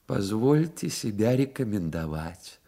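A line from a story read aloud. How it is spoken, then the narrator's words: Soft, ingratiating. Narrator (Russian): начал он мягким и вкрадчивым голосом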